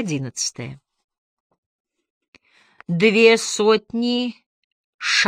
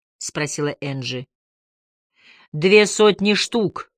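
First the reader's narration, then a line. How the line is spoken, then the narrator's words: Calm confirmation. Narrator (Russian): спокойно подтвердил Бруссард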